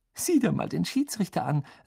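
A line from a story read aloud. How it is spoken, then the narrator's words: Giggling. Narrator (German): sagte sie kichernd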